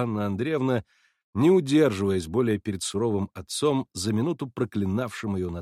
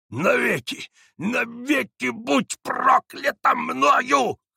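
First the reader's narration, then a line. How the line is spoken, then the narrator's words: Wheezing, gasping for breath. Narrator (Russian): хрипел он, задыхаясь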